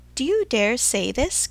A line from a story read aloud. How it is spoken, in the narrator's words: cried Mr